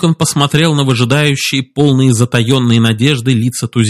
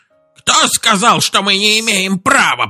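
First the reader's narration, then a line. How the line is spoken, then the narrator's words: Creaky old man's voice. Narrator (Russian): проскрипел старик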